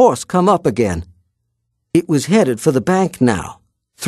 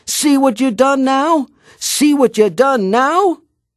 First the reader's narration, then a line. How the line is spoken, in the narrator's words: yelling at ants behind me